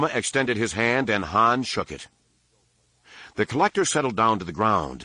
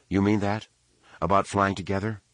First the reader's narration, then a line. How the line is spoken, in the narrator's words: Droma said flatly